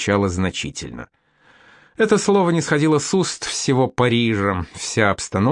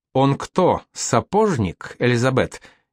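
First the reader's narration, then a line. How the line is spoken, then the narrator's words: Snide voice. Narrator (Russian): ехидно прозвучал чей-то голос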